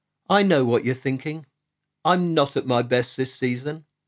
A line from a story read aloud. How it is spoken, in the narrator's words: said Ted